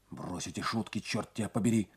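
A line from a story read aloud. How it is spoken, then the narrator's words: Whispering. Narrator (Russian): зашептал он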